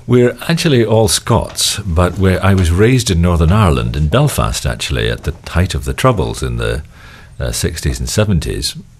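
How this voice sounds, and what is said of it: Mixed British Isles accent. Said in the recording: “picked up a bit of an accent ... my accent is all over the place”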